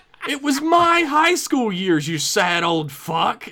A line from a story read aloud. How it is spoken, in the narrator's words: Jason yelled out